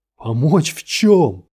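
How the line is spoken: Aggressive shout. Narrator (Russian): закричал, пытаясь наброситься

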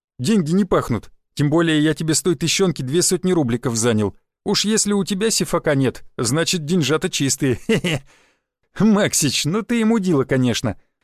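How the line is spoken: Laughing. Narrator (Russian): засмеялся тонкогубый

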